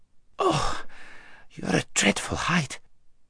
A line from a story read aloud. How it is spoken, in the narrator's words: gasped Shasta after his first and unsuccessful attempt